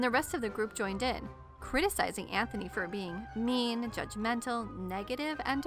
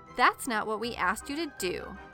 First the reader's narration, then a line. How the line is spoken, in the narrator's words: they said